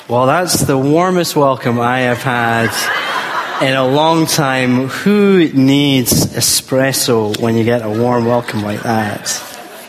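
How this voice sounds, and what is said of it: Scottish accent. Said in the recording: “Yes, there's a Scottish accent.”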